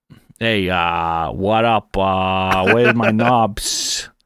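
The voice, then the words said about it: Put-on Chicago accent drifting New York. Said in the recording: “What's a Chicago accent? ... He went to New York at the end there?”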